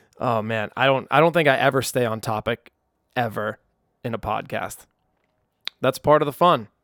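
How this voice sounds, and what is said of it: Excited, pumped-up voice. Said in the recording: “I'm pumped. You can hear it in my voice how excited I am.”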